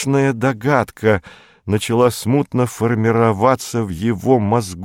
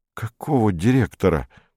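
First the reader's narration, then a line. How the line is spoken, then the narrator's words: Whisper. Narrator (Russian): прошептал Перец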